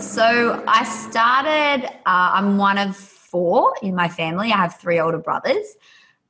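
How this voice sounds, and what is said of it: Australian accent. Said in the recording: “for the people that don't know my accent, I'm Australian”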